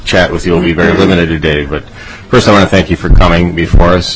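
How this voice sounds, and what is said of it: Strained, unwell-sounding voice. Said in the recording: “I apologize for my voice being not in very good shape.”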